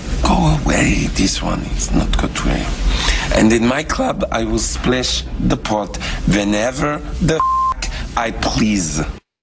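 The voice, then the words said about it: Over-the-top Teddy KGB accent. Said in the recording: “That is John Malkovich... Teddy KGB in Rounders... The accent's very over the top”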